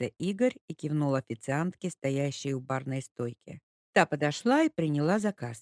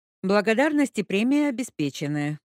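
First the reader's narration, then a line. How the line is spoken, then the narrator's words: Cheerful reply. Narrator (Russian): бодро ответил Игорь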